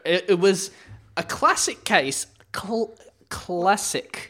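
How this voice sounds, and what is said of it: Put-on New Zealand accent. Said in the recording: “Did I get the New Zealand accent? ... Yeah, that was good.”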